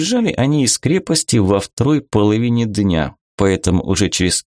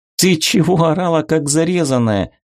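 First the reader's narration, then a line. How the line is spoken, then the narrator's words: Laughing. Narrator (Russian): засмеялась Вика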